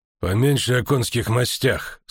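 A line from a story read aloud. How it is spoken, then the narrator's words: Dry reminder. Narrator (Russian): сухо напомнил Стефан Скеллен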